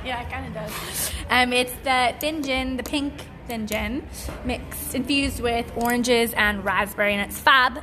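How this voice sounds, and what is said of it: Speaker's own regional accent. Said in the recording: “I thought you pronounced it funny ... It's my accent.”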